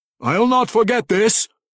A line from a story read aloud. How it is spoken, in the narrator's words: Kemp yelled at him from far down the hill